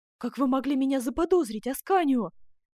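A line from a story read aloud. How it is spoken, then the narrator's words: Exclaiming. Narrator (Russian): воскликнула герцогиня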